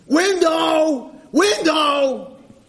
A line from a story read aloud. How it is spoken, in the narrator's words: he's screaming